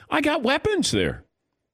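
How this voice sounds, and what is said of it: Sudden high-pitched voice. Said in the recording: “I don't know why my voice went up that high.”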